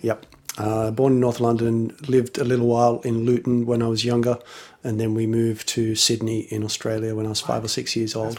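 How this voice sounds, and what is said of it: Unusual mixed English accent. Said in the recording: “you have a very weird English accent.”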